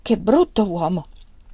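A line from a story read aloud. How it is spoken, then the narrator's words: Exclaimed. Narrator (Italian): esclamò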